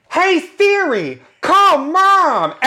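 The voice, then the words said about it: Jennifer Coolidge impression. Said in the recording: “my Jennifer Coolidge impression”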